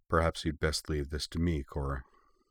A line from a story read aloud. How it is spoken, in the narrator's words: Bori said quietly